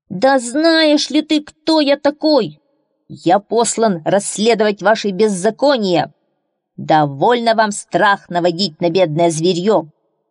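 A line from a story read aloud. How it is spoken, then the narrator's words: Shouting. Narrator (Russian): закричит на волка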